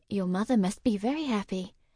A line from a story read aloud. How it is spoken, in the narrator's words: Lavinia murmured